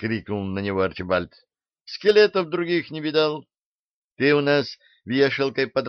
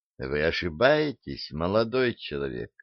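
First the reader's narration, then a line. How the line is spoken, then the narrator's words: Soft interruption. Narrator (Russian): мягко оборвала ангелесса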